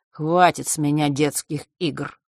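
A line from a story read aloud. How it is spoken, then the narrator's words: Cold, smug. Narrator (Russian): холодно произнес он, все с той же ноткой самодовольства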